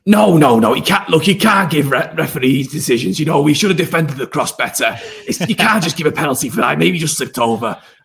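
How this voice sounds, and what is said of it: Impression of Paul. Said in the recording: “doing an impression of Paul”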